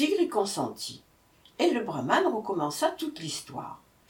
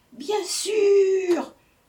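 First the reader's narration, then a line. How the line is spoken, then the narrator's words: Mock-fearful exclamation. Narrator (French): s'écria le chacal en faisant semblant de trembler de peur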